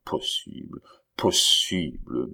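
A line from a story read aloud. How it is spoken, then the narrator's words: Old man's disdainful murmur. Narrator (French): murmura dédaigneusement le vieillard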